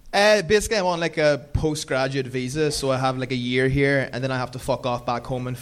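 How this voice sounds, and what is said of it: Thick Irish accent. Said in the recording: “Irish accent has gotten thicker”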